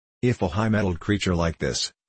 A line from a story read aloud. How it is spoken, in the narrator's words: said he